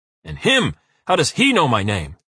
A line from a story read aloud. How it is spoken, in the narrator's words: Uwe roars